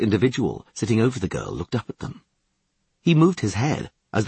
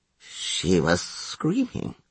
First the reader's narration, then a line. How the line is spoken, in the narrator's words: muttered the man, his breath smelling of alcohol